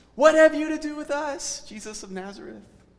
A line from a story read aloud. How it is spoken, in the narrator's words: somebody in the crowd just sort of cries out